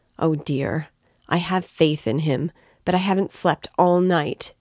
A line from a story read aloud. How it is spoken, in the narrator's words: exclaimed the poor woman